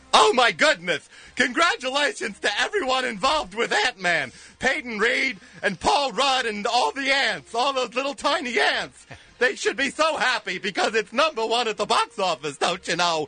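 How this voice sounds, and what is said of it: Imitates another person's voice. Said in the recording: “in your best Ed Wynn voice”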